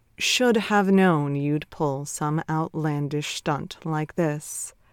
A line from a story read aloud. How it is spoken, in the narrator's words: Trent drawled